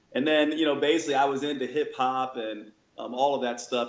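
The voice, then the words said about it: New York accent with slight Southern drawl. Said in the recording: “what's up with this guy's accent? ... born in New York ... the little Southern drawl ... a little bit of Northern Southern and a little bit of, you know, sort of thug”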